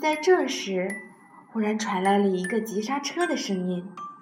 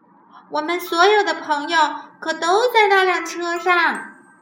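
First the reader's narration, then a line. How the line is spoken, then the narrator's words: Hysterical shouting. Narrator (Chinese): 猫咪歇斯底里的大叫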